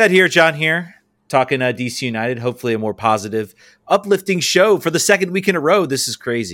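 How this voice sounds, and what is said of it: Usual voice. Nothing is said of it.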